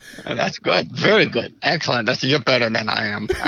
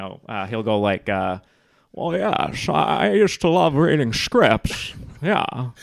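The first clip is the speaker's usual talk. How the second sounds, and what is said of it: Old actor voice impression. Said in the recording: “Sometimes we'll do a Jimmy Stewart where, you know, I'll do him. But I do Jimmy Stewart as he's an older actor who's retired from the business”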